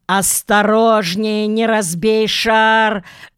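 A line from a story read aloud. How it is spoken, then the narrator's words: Shriek. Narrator (Russian): завизжала мадам Заза, мгновенно перейдя на английский, когда стол угрожающе закачался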